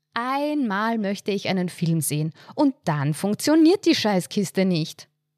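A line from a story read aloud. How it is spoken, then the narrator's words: Dramatic exclamation. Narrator (German): rief sie dramatisch aus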